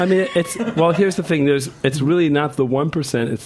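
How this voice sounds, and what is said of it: Usual voice. Nothing is said of it.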